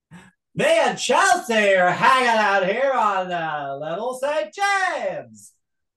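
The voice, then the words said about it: Hillary Clinton impression. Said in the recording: “That's my Hillary. It's not great, but it'll do.”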